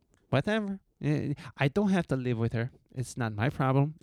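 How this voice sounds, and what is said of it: Poor put-on Mexican accent. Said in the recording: “my terrible Mexican accent”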